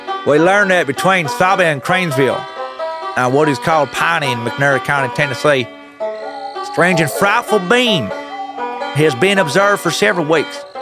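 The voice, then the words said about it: Stereotypical hillbilly accent. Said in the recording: “I will read this in a stereotypical hillbilly accent”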